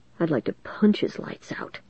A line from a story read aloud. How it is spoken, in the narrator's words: Zack muttered